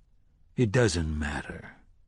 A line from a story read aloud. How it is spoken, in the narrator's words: said softly